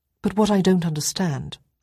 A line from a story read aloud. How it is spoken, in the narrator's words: I said